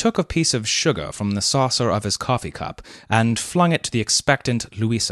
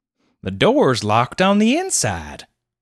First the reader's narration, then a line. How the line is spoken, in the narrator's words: exclaimed Clovis